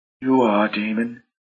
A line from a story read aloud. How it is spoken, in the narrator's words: she whispered